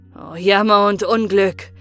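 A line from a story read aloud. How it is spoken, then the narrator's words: Lamenting cry. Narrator (German): rief der Königssohn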